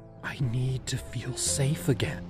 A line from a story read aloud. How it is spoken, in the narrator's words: I whispered